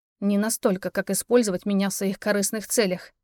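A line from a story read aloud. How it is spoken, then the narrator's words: Through gritted teeth. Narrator (Russian): процедила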